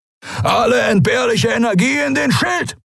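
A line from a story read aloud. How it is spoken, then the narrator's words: Bellowing into comm device. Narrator (German): brüllte Askur von den Kemcha'an in den Kubus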